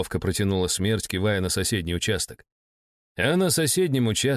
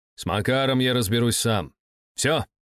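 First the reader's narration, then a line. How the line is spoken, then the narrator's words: Barked. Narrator (Russian): рявкнул я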